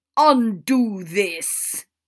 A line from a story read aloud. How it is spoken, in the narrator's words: Father bellowed